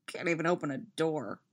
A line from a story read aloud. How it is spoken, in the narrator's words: mutters